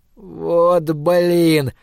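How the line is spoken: Exasperated groan. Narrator (Russian): простонал я, осознавая весь идиотизм ситуации

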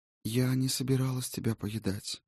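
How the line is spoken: Sad ghost. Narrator (Russian): печально сообщило привидение

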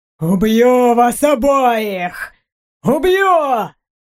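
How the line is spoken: Yelling, spitting rage. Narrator (Russian): Он орал и плевался

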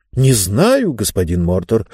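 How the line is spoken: Bewildered. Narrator (Russian): растерянно ответила женщина

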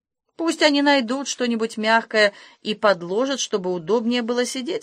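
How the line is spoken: Plain. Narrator (Russian): сказал Маскрин

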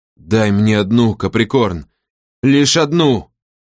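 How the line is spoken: Strained, forced out. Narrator (Russian): выдавил из себя ее отец

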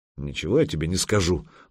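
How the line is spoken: Grumbled. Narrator (Russian): буркнул Санек

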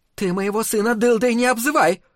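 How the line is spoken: Shrieked. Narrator (Russian): завизжала миссис Дулин

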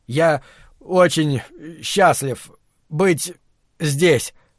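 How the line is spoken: Trembling voice. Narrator (Russian): дрожащим голосом начал Брэд

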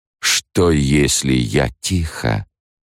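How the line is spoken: Muffled question. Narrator (Russian): Голос его звучал глухо, когда он спросил

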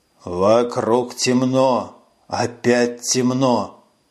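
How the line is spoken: Hoarse rasping. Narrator (Russian): хрипел голос

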